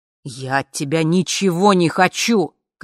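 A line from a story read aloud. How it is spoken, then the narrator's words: Shouting. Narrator (Russian): кричал А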